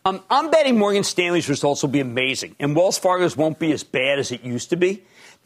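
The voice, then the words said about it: Philadelphia accent. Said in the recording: “I have a Philadelphia accent.”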